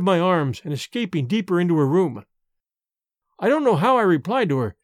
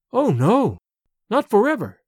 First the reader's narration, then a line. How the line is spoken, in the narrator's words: Sedenka cried